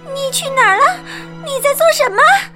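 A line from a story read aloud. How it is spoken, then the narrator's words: Panicked shout. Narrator (Chinese): 米克惊慌的喊道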